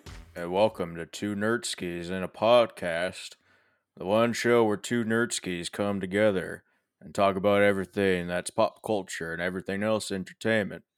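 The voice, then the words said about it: Bad imitation of another person's voice. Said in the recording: “a very badly impressioned voice of Sam Elliott ... my impression of Sam Elliott”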